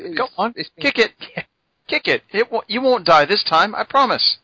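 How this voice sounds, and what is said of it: Bad put-on English accent. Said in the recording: “that horrible attempt at an English accent”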